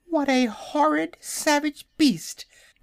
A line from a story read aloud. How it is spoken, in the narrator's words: exclaimed a piglet